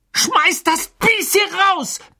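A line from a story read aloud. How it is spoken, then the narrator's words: Roared. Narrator (German): brüllte Ron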